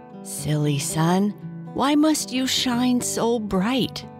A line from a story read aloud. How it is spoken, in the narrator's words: grumbled